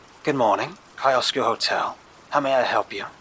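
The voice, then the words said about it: Soft, inviting English accent. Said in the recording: “A very familiar, soft English accent spoke. Comforting, inviting, professional, haunting.”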